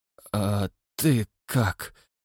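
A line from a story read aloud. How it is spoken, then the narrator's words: Weak voice, asking. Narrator (Russian): слабым голосом спросил Хэмилтон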